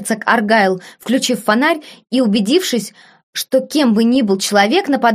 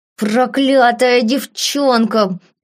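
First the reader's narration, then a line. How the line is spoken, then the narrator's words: Growling. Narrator (Russian): прорычал мистер Смит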